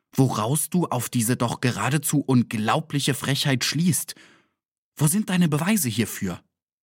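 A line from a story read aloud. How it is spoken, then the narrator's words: Quiet exclamation. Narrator (German): rief ich leise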